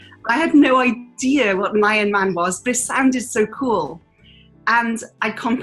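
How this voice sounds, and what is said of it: Usual voice. Nothing is said of it.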